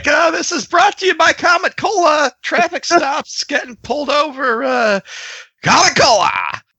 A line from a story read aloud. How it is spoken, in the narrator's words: Tim's going to scream out